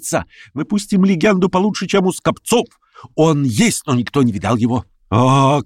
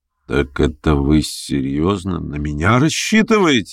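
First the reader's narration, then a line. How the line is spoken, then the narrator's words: Malicious smirk. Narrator (Russian): усмехнулся злобно Ставрогин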